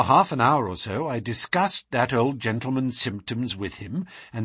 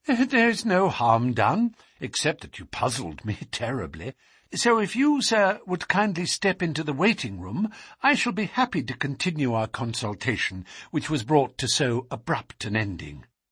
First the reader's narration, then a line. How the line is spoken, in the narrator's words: said I, laughing